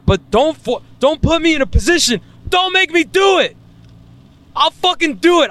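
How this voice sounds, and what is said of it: Yelling loudly. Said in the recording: “I'm yelling ... I'm going to be screaming. This shit is probably going to be clipping.”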